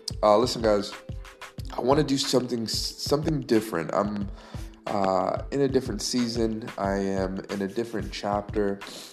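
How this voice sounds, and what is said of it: Stuffy, congested voice. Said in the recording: “I sound a little stuffy ... This Florida weather here in Jacksonville has caused me to go from healthy to stuffy”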